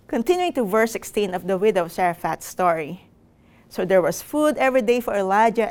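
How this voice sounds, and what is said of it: Thick Filipino accent. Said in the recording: “with a thick Filipino accent, and with English as her second language”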